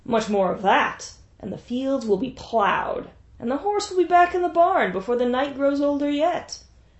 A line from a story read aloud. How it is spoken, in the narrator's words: Orsino yelled over the noise of the crowd